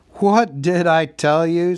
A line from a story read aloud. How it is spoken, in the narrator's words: said Gandalf, laughing